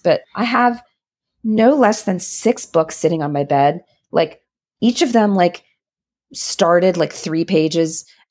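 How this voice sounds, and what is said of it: Sick, ill-sounding voice. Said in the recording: “I'm home with COVID, as you can probably hear from my voice”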